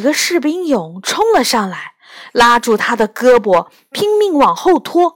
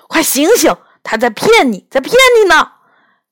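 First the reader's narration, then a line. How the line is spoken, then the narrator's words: Urgent desperate shouting. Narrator (Chinese): 拼命摇晃着我的肩膀，喊道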